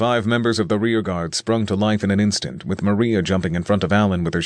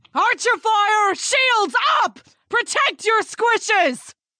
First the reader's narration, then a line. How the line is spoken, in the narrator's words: Maria shouted